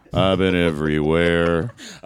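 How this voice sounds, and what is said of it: Deep-voiced singer impression. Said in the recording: “I've got a deep voice. ... Hey, you're pretty good.”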